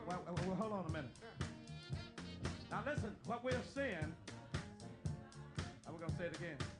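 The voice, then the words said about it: Mississippi accent. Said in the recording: “this Mississippi accent I got”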